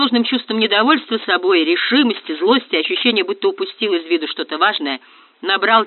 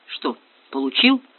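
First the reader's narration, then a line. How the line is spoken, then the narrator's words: Muttered to himself. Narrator (Russian): буркнул сам себе Ратибор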